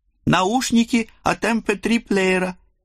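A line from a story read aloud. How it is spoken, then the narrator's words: Joyful explanation. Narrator (Russian): радостно пояснил он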